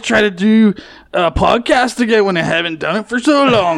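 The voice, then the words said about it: Bad Scottish accent, surfer-dude twang. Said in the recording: “somewhere between awful Scottish accent and like surfer dude bro ... I think there's some Eddie in there, too ... A lot of not good accent”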